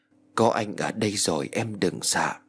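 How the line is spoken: Happy tender whisper. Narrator (Vietnamese): Văn Phi hạnh phúc thì thầm

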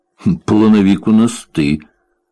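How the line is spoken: Gruff mutter. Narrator (Russian): буркнул Бобби

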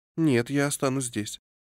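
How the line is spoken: Calm, quiet, resolute. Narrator (Russian): спокойно, тихо, но решительно заявила она

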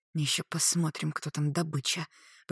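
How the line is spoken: Hissed through teeth. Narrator (Russian): прошипела Клариса сквозь зубы

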